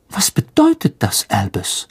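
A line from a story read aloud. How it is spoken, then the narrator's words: Anxious question. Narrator (German): fragte Professor McGonagall ängstlich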